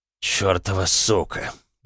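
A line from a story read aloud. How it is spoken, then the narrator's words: Muttering. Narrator (Russian): пробормотал Олден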